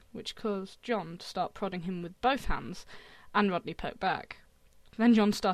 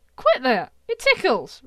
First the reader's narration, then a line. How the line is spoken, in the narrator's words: Rodney yelped with laughter